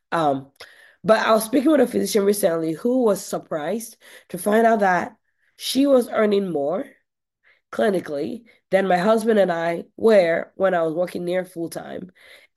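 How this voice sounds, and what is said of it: Croaky, scratchy voice. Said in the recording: “I'm recovering from a cold. So if my voice sounds a little bit croaky, scratchy, scorpy”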